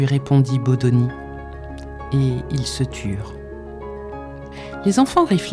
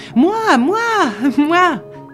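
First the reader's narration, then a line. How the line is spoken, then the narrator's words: Children yelling. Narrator (French): hurlèrent les enfants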